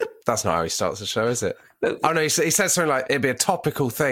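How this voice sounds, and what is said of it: Usual voice. Nothing is said of it.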